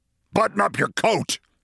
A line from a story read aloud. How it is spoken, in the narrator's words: snapped